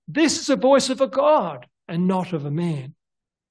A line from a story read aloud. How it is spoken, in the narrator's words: The people were so impressed that they cried out